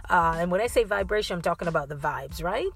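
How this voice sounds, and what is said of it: Slight Caribbean accent. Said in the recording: “You can hear a little Caribbean accent.”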